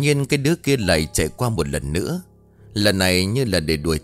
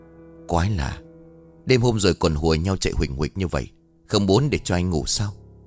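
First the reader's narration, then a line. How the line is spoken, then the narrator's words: Muttering. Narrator (Vietnamese): Anh Vương lẩm bẩm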